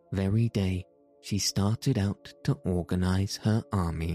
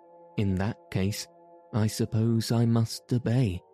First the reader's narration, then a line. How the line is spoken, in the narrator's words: the man remarked in a sad voice